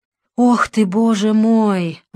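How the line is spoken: Sighing. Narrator (Russian): вздохнул отец Александр

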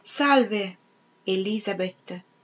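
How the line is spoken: Exclaimed. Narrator (Italian): esclamò Peter

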